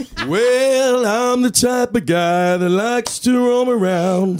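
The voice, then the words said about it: Hoarse crooning singing voice. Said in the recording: “Voice is very ... It's very hoarse.”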